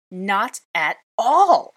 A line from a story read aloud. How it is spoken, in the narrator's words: I cried